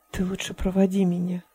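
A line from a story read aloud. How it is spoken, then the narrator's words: Whisper. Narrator (Russian): прошептал Стив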